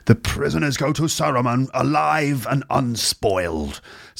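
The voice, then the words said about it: Received pronunciation, crisply enunciated, theatrical. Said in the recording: “an accent that's a bit more like received pronunciation ... all of the sounds are sort of like kind of fully pronounced ... every consonant sound at the end of every word is like, you know, enunciated, which makes him sound like a theatrical actor”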